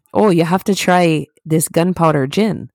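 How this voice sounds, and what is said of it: Put-on Irish accent. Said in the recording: “let me get my Irish accent in check ... That's my Irish accent.”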